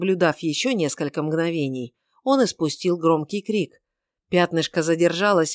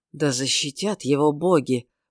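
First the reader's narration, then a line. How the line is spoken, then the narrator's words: Mumbled into beard. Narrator (Russian): пробормотал он себе в бороду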